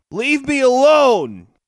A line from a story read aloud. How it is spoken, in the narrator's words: she yelled